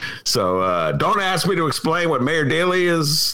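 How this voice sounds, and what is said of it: Usual voice. Nothing is said of it.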